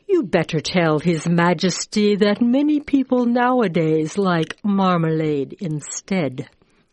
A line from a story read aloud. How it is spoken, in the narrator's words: The Alderney said sleepily